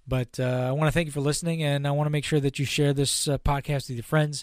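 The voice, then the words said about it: Hoarse voice. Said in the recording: “And it's affecting my voice. So I'm a little hoarse here.”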